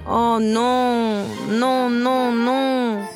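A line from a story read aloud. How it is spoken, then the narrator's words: Moaning duke. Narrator (French): gémit le duc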